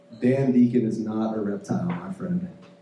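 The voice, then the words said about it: Put-on southern accent. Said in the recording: “When did you get that southern accent?”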